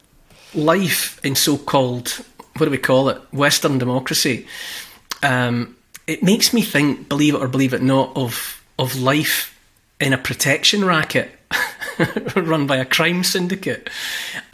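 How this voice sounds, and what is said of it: Scottish accent. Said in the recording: “a good Scottish accent”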